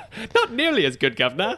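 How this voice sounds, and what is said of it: Put-on British accent. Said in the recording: “not as good as your British accent ... It sounds like Terrence and Phillip from the South Park movies.”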